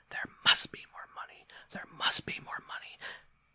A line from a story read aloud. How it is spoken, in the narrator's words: a voice would start whispering